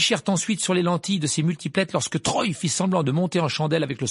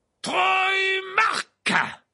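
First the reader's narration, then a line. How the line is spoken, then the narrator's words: Roared. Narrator (French): rugit Verplay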